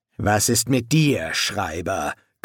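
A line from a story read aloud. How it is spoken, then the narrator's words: Growled. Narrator (German): knurrte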